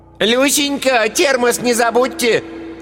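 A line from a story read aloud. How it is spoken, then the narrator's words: Shouted while moving away. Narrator (Russian): крикнула удаляющаяся вслед за мужем Ираида Павловна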